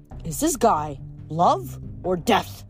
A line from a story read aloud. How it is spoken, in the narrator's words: Jason growled